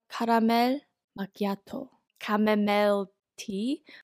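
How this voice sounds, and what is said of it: Put-on Korean accent. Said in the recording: “in like a Korean accent”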